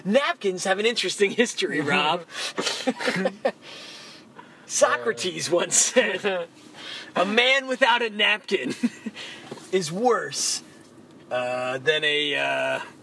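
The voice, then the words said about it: Dan Carlin impression. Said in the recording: “his Dan Carlin impression”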